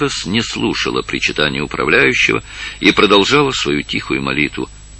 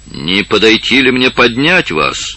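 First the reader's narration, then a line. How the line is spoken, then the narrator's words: Loud. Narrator (Russian): громко произнес он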